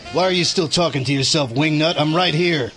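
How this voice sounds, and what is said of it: New Jersey accent. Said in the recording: “I recognized a Jersey accent.”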